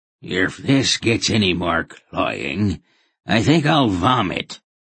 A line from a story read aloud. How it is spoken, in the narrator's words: a new voice, harsh and rasping, announced